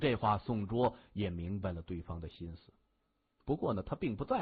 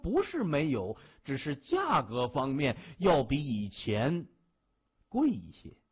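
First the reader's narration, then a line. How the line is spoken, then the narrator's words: Laughing heartily. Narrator (Chinese): 范比克 大笑，他说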